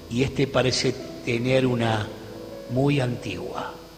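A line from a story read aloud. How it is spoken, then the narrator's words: Murmured. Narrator (Spanish): murmuró Gabriel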